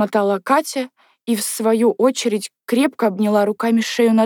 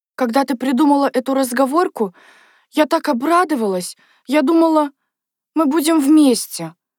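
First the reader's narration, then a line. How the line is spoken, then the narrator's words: Sobbing. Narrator (Russian): Говорила она, все еще всхлипывая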